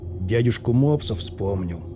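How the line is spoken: Knowing snort. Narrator (Russian): угадал, хмыкнув Соболь

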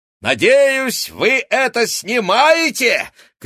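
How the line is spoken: Shouting. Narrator (Russian): крикнула она сообщникам

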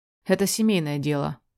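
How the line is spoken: Cold curt reply. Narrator (Russian): отрезает холодно

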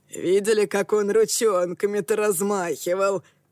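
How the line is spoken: Hoarse rasp. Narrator (Russian): прохрипел Акаме

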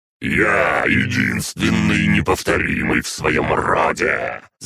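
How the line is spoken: Growling. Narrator (Russian): зарычал действующий примарх

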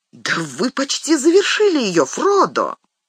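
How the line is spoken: Exclamation. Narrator (Russian): Сэм воскликнул

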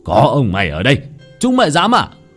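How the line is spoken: Bear growling. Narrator (Vietnamese): con gấu gầm gừ

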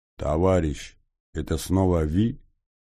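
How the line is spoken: Accented voice over speaker. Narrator (Russian): раздался из динамика голос с характерным акцентом

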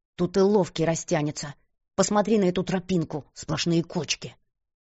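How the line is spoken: Hissing, suppressed anger. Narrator (Russian): прошипела она, стараясь сдержать непонятно откуда взявшуюся злость

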